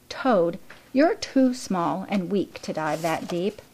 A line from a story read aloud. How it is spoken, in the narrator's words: just laughed, and said